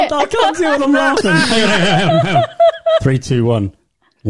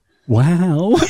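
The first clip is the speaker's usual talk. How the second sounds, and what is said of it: Owen Wilson impression. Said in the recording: “He also does a brilliant Owen Wilson impression. ... Yeah, it's not bad.”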